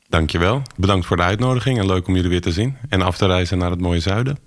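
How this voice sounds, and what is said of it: Juicy Amsterdam accent. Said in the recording (Dutch): “heerlijk sappig Amsterdamse accent”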